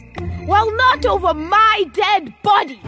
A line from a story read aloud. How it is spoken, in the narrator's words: yelled Cyrus